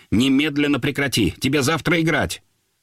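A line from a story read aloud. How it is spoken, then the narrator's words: Sharp scolding. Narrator (Russian): Любимов начал резко выговаривать Володе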